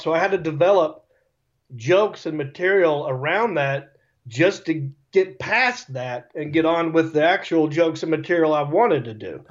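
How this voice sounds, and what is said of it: Speaker's own natural regional accent. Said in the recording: “I sound that way ... I know I sound dumb to you people, but this is how this is just my accent this is just how i talk ... i'm not a redneck but i'm not joe hollywood”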